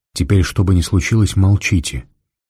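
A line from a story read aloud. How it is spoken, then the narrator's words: Quiet and very serious. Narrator (Russian): негромко и очень серьезно сказал Фондорин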